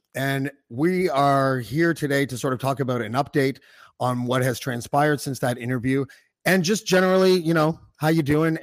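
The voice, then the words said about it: Strained, failing tired voice. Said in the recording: “My voice is going now ... So I sound fucked up ... He's just tired”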